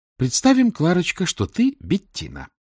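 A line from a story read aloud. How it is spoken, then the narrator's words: Cheerful. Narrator (Russian): бодро сказала Летиция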